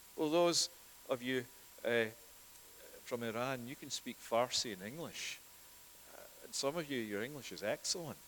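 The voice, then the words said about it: Scottish accent. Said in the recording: “I can only speak one language, and that with a Scottish accent, as you've all noticed.”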